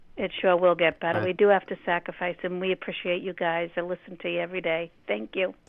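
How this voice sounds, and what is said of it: Noticeable regional accent. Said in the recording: “Love that accent. ... I love the accent.”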